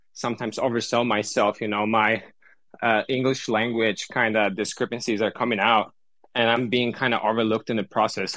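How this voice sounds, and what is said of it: Non-native English accent. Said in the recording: “Your English sounds amazing. You know, the accent is phenomenal. I mean, Americans love an accent.”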